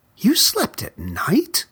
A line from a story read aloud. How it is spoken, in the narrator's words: gasped another